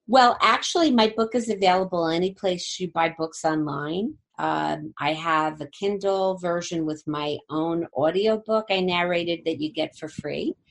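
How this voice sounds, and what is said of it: Jersey City accent. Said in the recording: “my lovely Jersey City accent”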